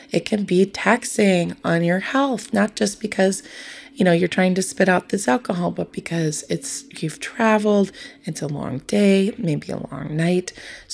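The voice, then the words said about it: Worn, tired voice from talking. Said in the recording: “You can hear in my voice, I've talked a lot. I've talked to a lot of people.”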